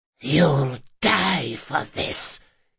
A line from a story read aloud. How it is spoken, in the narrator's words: hissed the servant